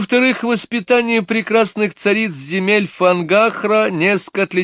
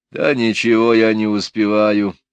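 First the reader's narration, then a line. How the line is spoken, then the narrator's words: Gloomy sigh. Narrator (Russian): неожиданно мрачно вздохнул Мелифару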